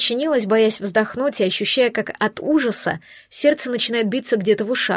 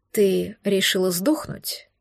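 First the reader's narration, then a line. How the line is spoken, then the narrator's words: Even, almost polite. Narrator (Russian): Неожиданно ровным голосом поинтересовались у меня почти что вежливо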